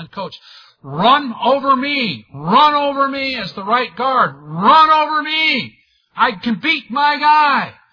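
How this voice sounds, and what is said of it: Yelling, shouted quoted line. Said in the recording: “He's yelling”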